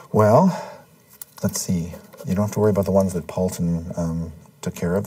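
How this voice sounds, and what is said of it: Congested, sniffly voice. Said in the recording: “if you hear me sniffing, it's because my I've got a cold ... My head is just filling up with mucus.”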